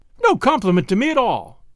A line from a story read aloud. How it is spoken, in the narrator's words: cried the girl indignantly